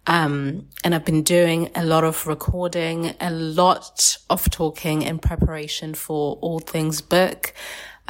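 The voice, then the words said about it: Strained, slightly failing voice. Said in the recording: “I've been losing my voice a little bit.”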